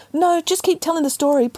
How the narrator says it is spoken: pleaded Peter

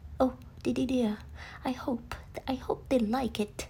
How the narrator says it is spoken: he stuttered

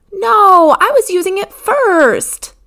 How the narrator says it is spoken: Morgan said loudly

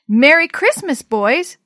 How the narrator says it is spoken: they shouted

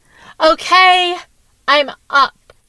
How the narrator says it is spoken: Caitlin yelled back

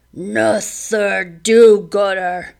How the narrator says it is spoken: he grunted

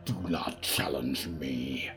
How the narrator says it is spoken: Riku snarled

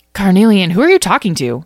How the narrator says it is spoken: asked frantically

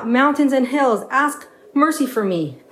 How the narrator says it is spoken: He called out

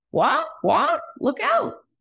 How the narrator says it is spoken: shouted a baby chick

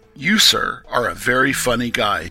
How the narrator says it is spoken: she had exclaimed

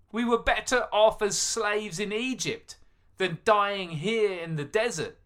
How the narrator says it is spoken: cried

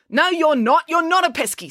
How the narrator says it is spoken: snapped April

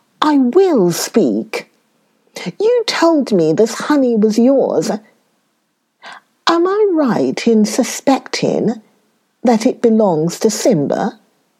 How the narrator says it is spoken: Kobe became suspicious and said

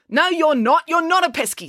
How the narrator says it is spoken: snapped April

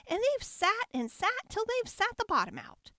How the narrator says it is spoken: squeaked the baby bear in his shrill little voice

